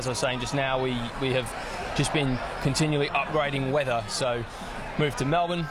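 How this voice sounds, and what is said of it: Foreign British accent. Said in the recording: “you'd lived overseas. We can tell by that accent.”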